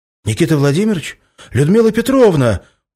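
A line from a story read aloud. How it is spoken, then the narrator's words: Surprised exclamation. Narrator (Russian): удивленно воскликнул Влад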